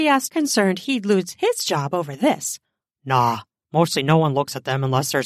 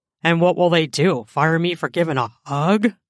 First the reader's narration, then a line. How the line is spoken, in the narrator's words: He said with a scoff